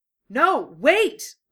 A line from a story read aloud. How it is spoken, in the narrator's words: Lee shouted